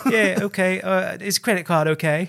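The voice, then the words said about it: Put-on British accent. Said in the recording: “I did a British accent. Yes. So then I continued to do a British accent”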